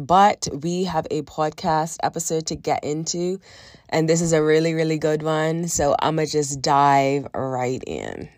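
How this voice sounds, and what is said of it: Hoarse, congested sick-sounding voice. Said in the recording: “as you can tell by my voice, have a bit of a cold, feeling a lot better. But I still sound like this and it sucks.”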